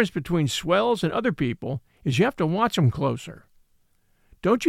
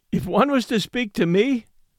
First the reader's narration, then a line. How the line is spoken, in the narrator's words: laughed Lou